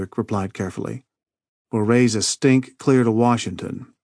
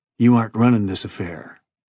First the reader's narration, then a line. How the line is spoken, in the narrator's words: Keith replied coldly